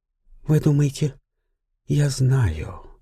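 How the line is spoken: Calm. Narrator (Russian): спокойно произнесла графиня

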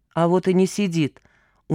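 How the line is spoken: Dejected reply. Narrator (Russian): уныло откликнулась Мурка

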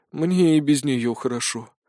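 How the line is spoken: Sigh. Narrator (Russian): вздохнул сержант

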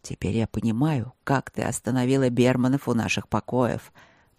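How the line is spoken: Murmured. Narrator (Russian): пробормотал он

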